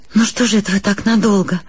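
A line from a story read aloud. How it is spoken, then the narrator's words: Very sad. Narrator (Russian): сказала я ужасно грустно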